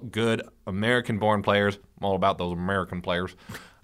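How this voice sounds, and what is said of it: Put-on generic Southern Midwestern accent. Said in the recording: “good impression... Of, of something. I don't know. Generic, random Southern Midwesterner.”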